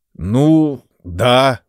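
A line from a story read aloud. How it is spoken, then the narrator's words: Forced, reluctant. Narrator (Russian): выдавил я из себя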